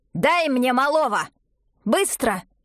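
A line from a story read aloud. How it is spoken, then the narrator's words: Barked. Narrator (Russian): рявкнула Шипичиха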